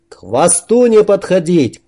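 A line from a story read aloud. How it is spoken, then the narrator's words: Shout. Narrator (Russian): крикнул Макс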